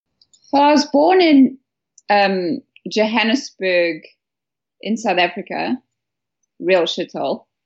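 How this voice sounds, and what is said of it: Non-English accent. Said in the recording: “from your accent, that is not where you were born”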